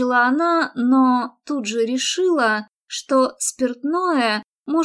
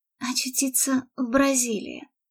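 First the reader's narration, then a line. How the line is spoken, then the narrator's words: Mutter with ragged sigh. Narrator (Russian): пробормотала с прерывистым вздохом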